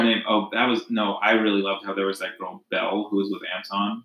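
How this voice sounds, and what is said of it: Usual voice. Nothing is said of it.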